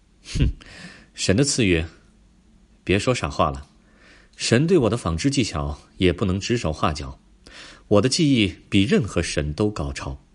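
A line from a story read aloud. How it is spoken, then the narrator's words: Admiring. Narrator (Chinese): 阿拉克涅的朋友赞叹道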